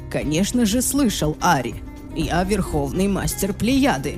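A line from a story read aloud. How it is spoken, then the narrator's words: Plain. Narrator (Russian): ответил он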